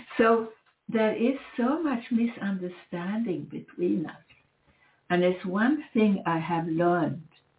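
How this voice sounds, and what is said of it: Non-native English accent. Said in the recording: “people are not used to someone like me, meaning the accent ... I don't speak with, you know, the regular accent”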